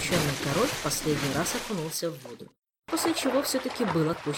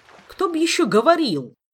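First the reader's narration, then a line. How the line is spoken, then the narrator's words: Indignant exclamation. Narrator (Russian): негодующе воскликнул он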